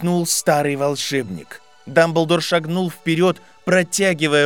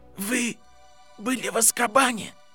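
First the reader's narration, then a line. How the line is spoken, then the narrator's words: Whisper. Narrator (Russian): прошептал Гарри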